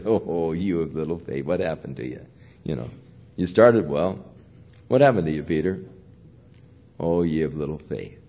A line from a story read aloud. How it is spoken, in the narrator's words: I can hear Jesus chuckle as he said